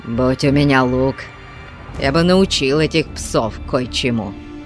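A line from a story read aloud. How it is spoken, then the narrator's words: Through gritted teeth, barbarian. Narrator (Russian): процедил варвар сквозь зубы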